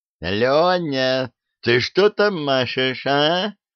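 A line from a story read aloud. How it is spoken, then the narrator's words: Group yelling far. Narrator (Russian): орали они Ромашкину, идущему далеко впереди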